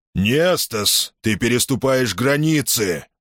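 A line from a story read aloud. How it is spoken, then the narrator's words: Gruff grumble. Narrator (Russian): грубо пробурчал Никомед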